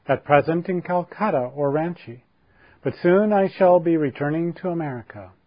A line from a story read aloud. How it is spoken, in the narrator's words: her voice clear and melodious